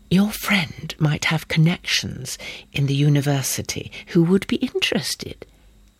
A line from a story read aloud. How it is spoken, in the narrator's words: breathed scarcely audibly